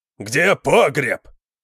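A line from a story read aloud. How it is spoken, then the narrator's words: Roaring. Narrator (Russian): проревел Конан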